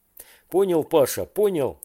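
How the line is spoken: Exclamation. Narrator (Russian): воскликнул Женя

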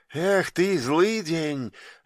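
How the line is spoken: Light sigh. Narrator (Russian): легко вздохнул идущий впереди с фонарем

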